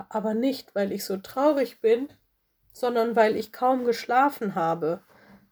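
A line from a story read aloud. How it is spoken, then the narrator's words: Groaning. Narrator (German): stöhnte Lola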